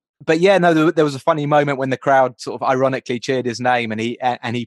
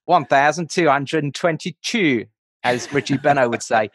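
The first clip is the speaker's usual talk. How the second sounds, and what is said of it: Put-on Australian accent. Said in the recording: “Can you say that with an Australian accent”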